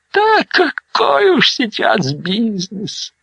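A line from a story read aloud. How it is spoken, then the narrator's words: Elderly sigh. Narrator (Russian): вздохнул пожилой зародыш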